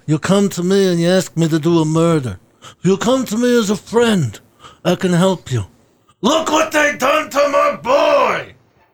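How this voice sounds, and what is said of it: Don Corleone impression. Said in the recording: “Don Corleone ... It's my Don Corleone ... That's not bad ... it's within my vocal range”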